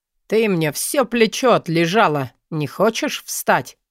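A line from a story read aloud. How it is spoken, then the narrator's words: Displeased grumbling. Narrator (Russian): Послышалось над ухом недовольное ворчание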